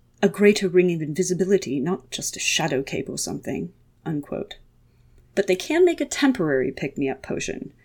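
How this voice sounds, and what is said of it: Put-on British accent. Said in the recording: “my terrible British accent, but Bob has one”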